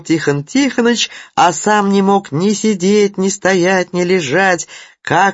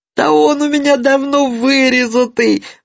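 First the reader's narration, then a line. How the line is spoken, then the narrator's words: Desperate sob. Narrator (Russian): в отчаянии всхлипнул Тихон Тихоныч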